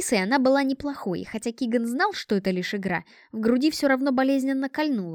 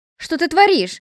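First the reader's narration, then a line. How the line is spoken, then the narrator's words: Frightened shout. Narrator (Russian): испуганно крикнула Ремильда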